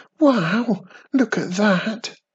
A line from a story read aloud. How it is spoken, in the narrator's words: Wizardy Witch squealed excitedly